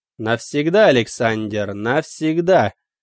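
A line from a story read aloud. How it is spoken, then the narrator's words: Deep belly laugh. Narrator (Russian): Мой собеседник утробно захохотал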